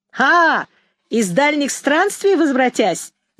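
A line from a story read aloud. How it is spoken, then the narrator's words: Shout. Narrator (Russian): закричал Ромка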